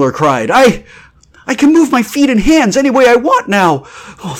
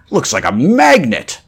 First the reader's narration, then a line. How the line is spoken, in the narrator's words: A burly space hand grunted, shaking a dazed head